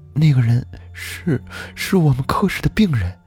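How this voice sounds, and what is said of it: Trembling, shaky voice. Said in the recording (Chinese): “用颤抖的声音说”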